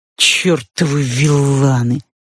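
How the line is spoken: Fat man grumbling. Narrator (Russian): проворчал толстяк

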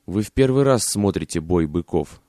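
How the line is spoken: Plain. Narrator (Russian): сказала она

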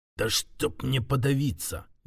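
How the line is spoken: Muffled greedy mutter. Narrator (Russian): глухо пробормотал, но не от страха, а от жадности, которая буквально распирала грудь

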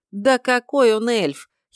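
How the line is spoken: Giggling. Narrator (Russian): хихикнул новоявленный братец

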